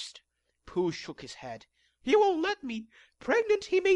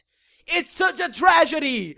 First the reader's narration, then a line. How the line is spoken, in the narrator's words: I shouted to the high heavens